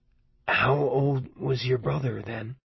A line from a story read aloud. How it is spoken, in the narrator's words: I asked hoarsely